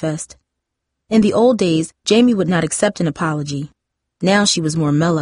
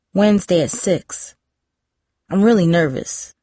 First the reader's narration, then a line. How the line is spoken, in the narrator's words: Darcy said